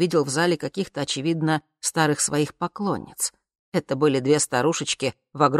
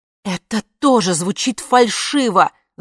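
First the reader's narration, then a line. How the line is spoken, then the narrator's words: Yelling. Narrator (Russian): заорала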